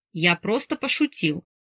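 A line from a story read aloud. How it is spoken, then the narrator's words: Snapping. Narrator (Russian): огрызнулся Марк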